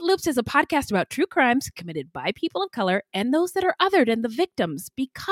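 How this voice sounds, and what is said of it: Usual voice. Nothing is said of it.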